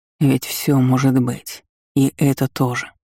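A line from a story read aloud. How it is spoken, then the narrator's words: Quiet reply. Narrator (Russian): так же тихо ответил Жильберт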